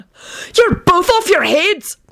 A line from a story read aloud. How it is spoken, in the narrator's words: Benji yelled with a panicked expression